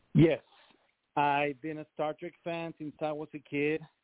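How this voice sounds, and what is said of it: Mexican accent. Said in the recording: “As you guys can hear, I have an accent. I'm from Mexico.”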